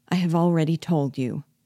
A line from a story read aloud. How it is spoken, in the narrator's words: answered he, sadly